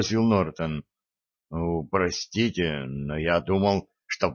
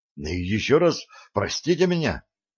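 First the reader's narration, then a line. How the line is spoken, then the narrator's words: Hurried. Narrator (Russian): торопливо повторил Нортон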